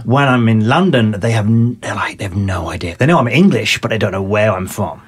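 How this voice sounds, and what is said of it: English accent mixing North and South. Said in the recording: “my accent is kind of a mixture of North and South ... will think I sound Australian”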